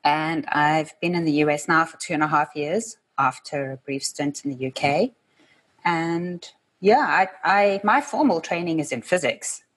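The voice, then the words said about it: South African accent, mixed-sounding. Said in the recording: “I'm from South Africa, so the accent is not typically American or British. It's a bit of a mix of everything.”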